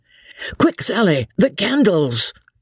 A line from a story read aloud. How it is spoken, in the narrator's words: shouted Jellyband, as, hopping about from one leg to another, he ran hither and thither